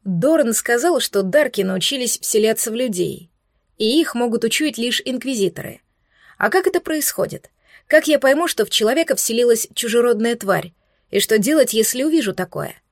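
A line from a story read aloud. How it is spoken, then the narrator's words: Plain question. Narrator (Russian): спросила я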